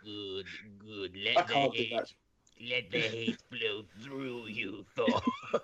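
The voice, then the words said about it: Palpatine character voice impression. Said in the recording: “my best Palpatine impression”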